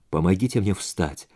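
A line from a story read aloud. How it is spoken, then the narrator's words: Mumbled. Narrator (Russian): пробормотал Джонни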